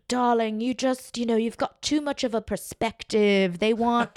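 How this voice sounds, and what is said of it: Put-on accent imitating another person. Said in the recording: “I can't do this accent anymore”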